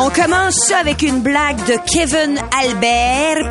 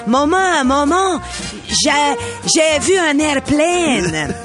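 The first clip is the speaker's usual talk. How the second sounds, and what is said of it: Put-on Acadian French accent. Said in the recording (French): “moi je prends un accent ... c'est une blague qui nous propose qui concerne des gens du Nouveau-Brunswick ... ça se passe dans un village de l'Acadie”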